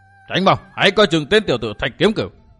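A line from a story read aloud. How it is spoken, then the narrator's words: Alarmed shout. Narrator (Vietnamese): Giác Hải đại sư kinh hãi quát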